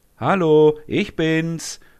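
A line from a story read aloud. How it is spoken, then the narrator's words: Called out. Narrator (German): ruft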